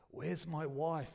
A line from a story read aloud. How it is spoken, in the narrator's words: croaked